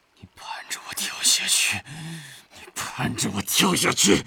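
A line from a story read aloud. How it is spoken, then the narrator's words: Trembling voice. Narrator (Chinese): 玉社声音发抖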